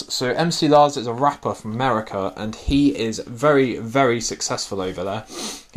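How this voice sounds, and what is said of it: Excited, energetic speaking voice. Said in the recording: “I sound so excited”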